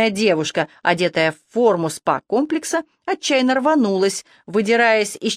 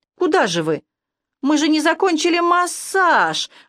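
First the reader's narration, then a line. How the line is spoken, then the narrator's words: Indignant drawl, woman. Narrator (Russian): возмущенно протянула завернутая в коротенькое махровое полотенечко фигуристая блондинка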